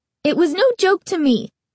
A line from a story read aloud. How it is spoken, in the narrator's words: Carly Beth exclaimed angrily